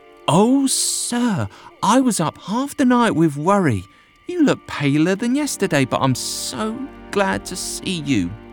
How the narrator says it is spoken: She exclaimed

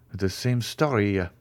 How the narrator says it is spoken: muttered the jeweler

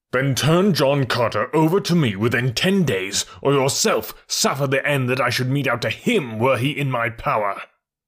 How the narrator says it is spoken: snapped the Jennak of Jennaks with an ugly scowl

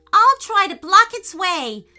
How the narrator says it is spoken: yelled Payton

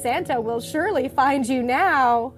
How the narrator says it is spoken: Aunt Mim said with a laugh

